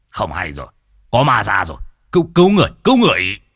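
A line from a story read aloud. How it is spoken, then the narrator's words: Shouting. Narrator (Vietnamese): Lão nhị quát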